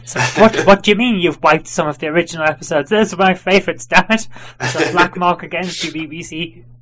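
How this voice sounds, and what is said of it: Put-on, unidentifiable accent. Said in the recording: “I don't know what accent that's supposed to be.”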